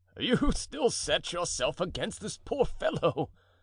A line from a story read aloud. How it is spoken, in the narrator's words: said La Ramee with his rude laugh